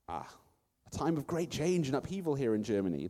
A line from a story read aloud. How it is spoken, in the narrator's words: the wise man exclaimed